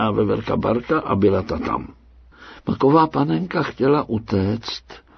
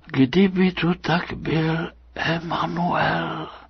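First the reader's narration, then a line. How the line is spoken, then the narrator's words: Doll's sad whisper. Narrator (Czech): zašeptala panenka samým smutkem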